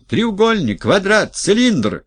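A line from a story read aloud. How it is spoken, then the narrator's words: Group shouting. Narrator (Russian): кричали одни и те же люди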